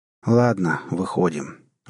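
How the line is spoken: Weary. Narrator (Russian): устало произнес капитан

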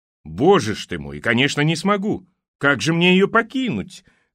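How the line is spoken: Carefree joking chuckle. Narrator (Russian): хохотнул он, ни на минуту не выходя из образа беззаботного шутника

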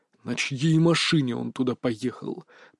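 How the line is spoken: General's hiss. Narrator (Russian): прошипел генерал

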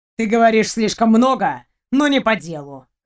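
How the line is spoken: Snort. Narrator (Russian): хмыкнул он

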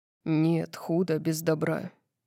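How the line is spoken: Calm. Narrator (Russian): спокойно сказал он

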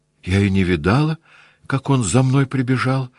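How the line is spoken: Timid. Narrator (Russian): робко сказала она

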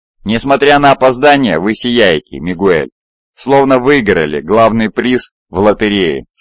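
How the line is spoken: Plain. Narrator (Russian): сказал Цезарь

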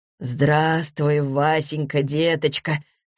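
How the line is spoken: Embarrassed mumble. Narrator (Russian): смущенно пробормотал он

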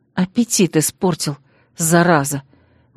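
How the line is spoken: Quiet grumble. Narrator (Russian): буркнула я тихонько

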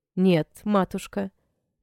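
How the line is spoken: Calm reply. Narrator (Russian): ответил Гьетал спокойно

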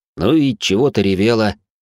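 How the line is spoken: Grumbling. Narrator (Russian): проворчал

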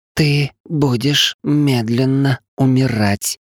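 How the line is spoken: Drawling, savoring each word. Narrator (Russian): смакуя каждое слово, протянула Кириаши

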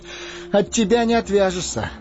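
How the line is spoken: Laughing. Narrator (Russian): засмеялся Фродо

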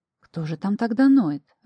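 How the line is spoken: Confused mutter. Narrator (Russian): растерянно пробормотала я

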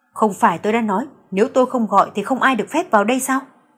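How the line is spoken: Irritated, raised voice. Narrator (Vietnamese): Tâm tình Tưởng Huy Âm rất tệ, liền cao giọng nói

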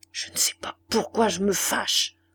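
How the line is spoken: Murmuring. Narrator (French): murmura-t-il

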